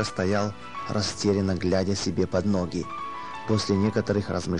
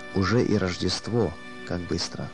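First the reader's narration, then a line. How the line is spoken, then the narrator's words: Trembling voice. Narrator (Russian): дрожащим голосом он проговорил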